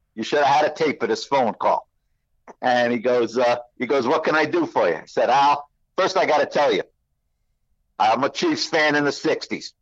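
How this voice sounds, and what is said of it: Brooklyn accent. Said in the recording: “Brooklyn accent matched up against Brooklyn accent”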